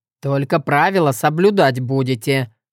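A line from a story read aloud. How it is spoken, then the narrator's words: Stern. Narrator (Russian): говорю строго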